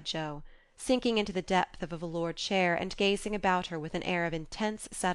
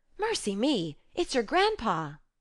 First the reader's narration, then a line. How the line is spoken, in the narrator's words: exclaiming with alarm